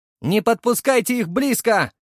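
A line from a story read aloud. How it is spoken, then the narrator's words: Shouted. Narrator (Russian): заорал я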